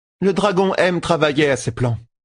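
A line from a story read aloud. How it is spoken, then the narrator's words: Plain. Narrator (French): dit Egwene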